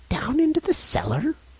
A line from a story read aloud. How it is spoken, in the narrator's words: cried the old servant